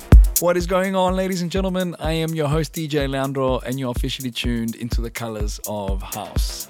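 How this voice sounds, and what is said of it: Damaged voice, under the weather. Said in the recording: “as you can hear, my voice has been taking some damage... I am currently a little bit under the weather... My voice is a little bit down.”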